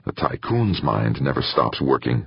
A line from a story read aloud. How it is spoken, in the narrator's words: Alexios muttered